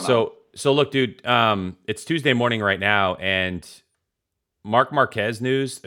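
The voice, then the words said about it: Tired-sounding voice. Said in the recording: “I'm just I'm tired, as you can hear in my voice.”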